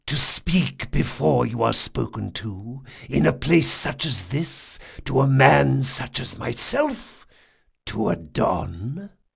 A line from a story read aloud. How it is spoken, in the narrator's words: the Don asked in a serpentine whisper